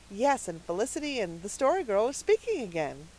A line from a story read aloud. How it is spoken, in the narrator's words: said Cecily happily